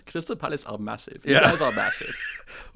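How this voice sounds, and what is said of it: Put-on Norwegian accent. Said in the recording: “That was actually a very precise Norwegian accent... that was actually the southern Oslo accent.”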